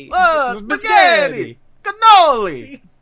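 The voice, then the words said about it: Exaggerated put-on Italian accent. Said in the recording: “do an impression of Brian doing an impression of a vampire doing an impression of an Italian guy”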